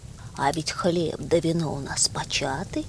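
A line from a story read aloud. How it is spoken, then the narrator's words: Plain, eagle. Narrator (Russian): говорит орел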